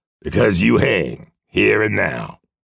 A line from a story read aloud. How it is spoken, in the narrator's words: the big man said harshly